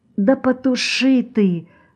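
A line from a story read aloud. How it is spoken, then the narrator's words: Whispered. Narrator (Russian): прошептала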